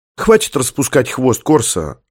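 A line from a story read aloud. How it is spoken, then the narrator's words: Irritated young woman. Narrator (Russian): раздраженно бросила девушка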